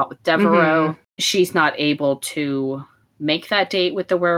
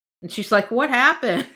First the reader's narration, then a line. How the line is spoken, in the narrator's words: She yells through the hole in the ceiling